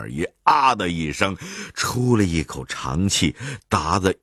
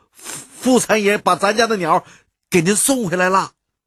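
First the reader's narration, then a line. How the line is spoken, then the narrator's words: Loud. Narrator (Chinese): 大声的跟掌柜的说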